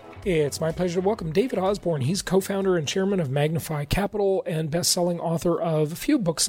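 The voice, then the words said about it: Hoarse, strained voice. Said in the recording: “I'm losing my voice here a bit”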